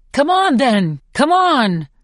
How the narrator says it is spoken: shouts Peeta, panting with rage

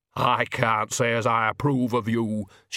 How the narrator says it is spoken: she said stiffly

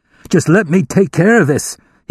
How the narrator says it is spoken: he pleaded

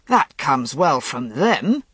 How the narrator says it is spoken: Gawain snorted

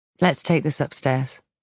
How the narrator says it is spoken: Trent says at last, his voice calm and reasonable

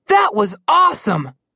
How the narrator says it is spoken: Connor exclaimed

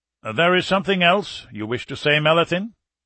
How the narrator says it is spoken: Bittner asked sharply

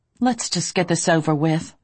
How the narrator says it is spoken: I said tightly

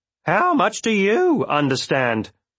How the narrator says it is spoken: With a chuckle

